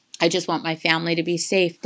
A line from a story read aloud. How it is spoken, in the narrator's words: Dad said